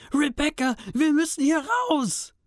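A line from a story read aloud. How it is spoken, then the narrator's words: Trembling shout. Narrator (German): schrie mit bebender Stimme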